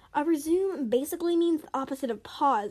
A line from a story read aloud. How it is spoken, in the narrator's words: exclaimed Coco